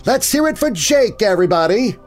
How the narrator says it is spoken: she shouted

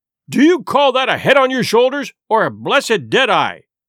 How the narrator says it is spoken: cried Long John

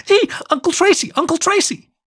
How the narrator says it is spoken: the little German Shepherd noticed Tracy walking her way, she stopped and squealed

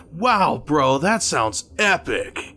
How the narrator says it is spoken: I think I went a bit too far when I shouted

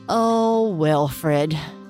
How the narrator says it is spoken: Gianna said with a deep sigh

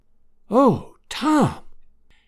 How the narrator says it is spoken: whispered Aunt Sally, tears of happiness streaming down her old face

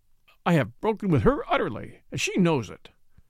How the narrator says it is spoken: cried Derek angrily

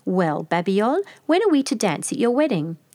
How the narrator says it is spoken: he exclaimed

